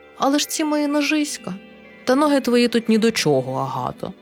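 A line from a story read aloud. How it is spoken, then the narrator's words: Gentle but insistent king. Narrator (Ukrainian): лагідно, але наполегливо відказав король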